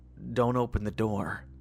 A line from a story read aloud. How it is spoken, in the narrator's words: I whispered